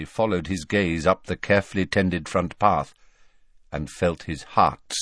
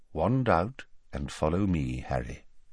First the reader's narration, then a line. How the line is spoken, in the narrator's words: he said quietly